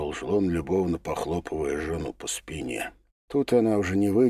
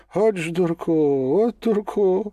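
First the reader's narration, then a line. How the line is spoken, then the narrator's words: Woman's strained moan. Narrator (Russian): с трудом простонала женщина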